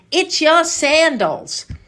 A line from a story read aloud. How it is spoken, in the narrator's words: As if this were the worst of scandals, Ida shouted